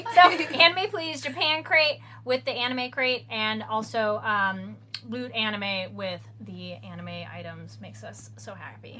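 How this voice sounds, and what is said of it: Strained voice giving out. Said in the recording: “what is my voice? ... Your voice is giving out”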